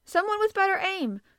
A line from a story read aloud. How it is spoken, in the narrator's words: cried the captain